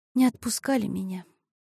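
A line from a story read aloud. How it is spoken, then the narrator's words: Quiet. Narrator (Russian): тихо сказала Мариша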